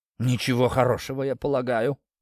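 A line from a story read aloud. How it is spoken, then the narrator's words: Muttered. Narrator (Russian): пробормотал Гинзбург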